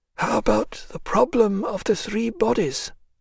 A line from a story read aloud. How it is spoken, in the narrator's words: whispered Kryltzoff, smiling with great difficulty